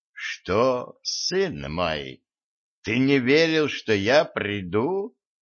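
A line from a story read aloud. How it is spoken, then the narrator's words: Soft question. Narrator (Russian): мягко спросил Некрон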